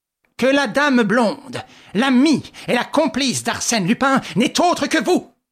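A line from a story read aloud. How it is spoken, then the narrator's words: Vehement exclamation. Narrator (French): s'écria Ganimard dans un grand mouvement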